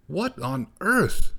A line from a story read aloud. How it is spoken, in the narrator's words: exclaimed Gorsh